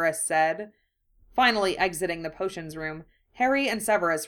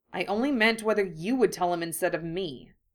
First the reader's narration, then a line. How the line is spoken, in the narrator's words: Harry said irritably